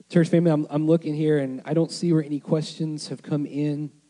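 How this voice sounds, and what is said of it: Strained, hoarse voice. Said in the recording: “losing my voice”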